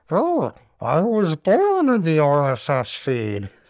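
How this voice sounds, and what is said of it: Imitates a movie villain's voice. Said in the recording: “Probably a terrible impression of Bane”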